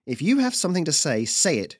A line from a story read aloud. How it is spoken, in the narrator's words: she snapped